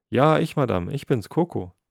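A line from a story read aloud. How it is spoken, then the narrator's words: Joyful call. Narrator (German): rief Coco freudig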